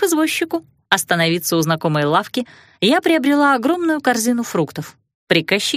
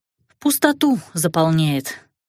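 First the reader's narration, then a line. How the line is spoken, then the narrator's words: Sigh. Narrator (Russian): вздохнула я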